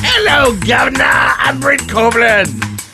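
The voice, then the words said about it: Poor fake British accent. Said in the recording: “I guess that was British. ... That was a horrible British accent you did ... The worst ever.”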